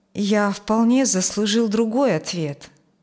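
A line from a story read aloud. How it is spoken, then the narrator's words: Sad. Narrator (Russian): грустно сказал он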